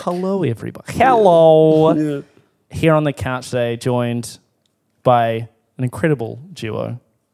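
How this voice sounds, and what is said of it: Announcer-style radio voice. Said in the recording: “now I go into radio voice”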